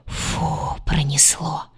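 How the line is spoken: Whisper. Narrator (Russian): прошептала она

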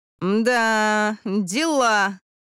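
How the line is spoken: Drawled. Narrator (Russian): протянула Крис

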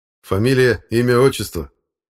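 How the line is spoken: Stern question. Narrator (Russian): строго спросил парень

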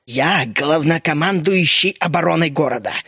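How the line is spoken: Through gritted teeth. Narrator (Russian): процедил Геллинхорт

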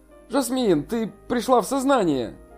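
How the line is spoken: Surprised, joyful cry. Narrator (Russian): Юнчэ сразу вскрикнул от удивления и радости

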